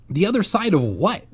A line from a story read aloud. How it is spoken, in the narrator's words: He asked impatiently